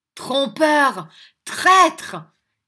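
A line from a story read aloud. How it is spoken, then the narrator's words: Woman shouting. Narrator (French): cria la dame en menaçant de se porter à des violences personnelles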